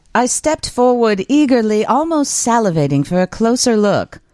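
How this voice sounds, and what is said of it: Put-on British accent. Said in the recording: “use a British accent for this?”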